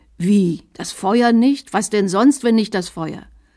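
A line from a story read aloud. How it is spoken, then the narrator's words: Bishop shouting in anger. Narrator (German): Der Bischof rief zornrot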